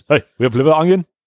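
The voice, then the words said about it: Greek-accented man's voice. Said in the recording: “It sounded like Arnold Schwarzenegger ... It's a Greek guy. It's a Greek guy from Deli King.”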